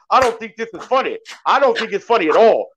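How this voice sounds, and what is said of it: Imitates another person's voice. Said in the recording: “that is a dope Shannon Sharp impersonation”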